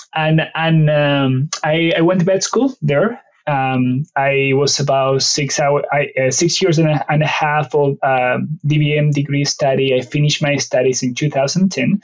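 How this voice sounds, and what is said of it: Strong Argentine Spanish accent. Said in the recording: “the strong accent ... I'm originally from Argentina. My native language is Spanish”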